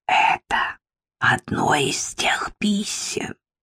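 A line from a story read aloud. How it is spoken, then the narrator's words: Theatrical whisper. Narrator (Russian): произнесла театральным шепотом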